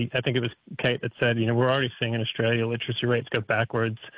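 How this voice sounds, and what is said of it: North American accent. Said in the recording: “I can hear an accent there ... North America”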